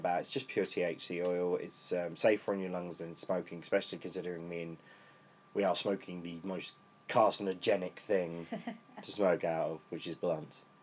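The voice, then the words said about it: Voice gone much deeper, lowered. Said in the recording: “my voice has gone a whole octave lower”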